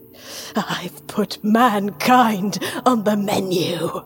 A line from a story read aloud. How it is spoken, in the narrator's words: he rasped